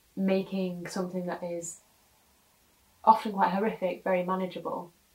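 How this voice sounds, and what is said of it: Emotional, choked-up voice. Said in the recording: “Sorry, I'm getting emotional. I don't know why I'm getting emotional.”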